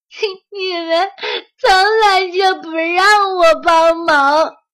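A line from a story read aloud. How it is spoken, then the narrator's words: Sobbing. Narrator (Chinese): 鸭子哭哭啼啼地说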